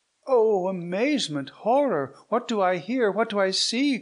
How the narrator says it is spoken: cried Isabella

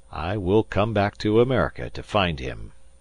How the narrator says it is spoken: said Phileas Fogg calmly

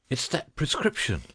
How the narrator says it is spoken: he panted

